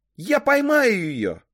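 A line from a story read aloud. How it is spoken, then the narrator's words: Shouted. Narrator (Russian): крикнула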